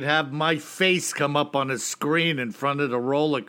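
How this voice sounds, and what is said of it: Usual voice. Nothing is said of it.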